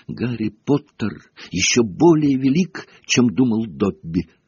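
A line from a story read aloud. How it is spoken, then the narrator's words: Sobbing exclamation. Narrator (Russian): воскликнул он с рыданием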